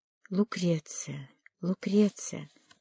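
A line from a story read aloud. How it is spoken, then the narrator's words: Whisper. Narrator (Russian): прошептал он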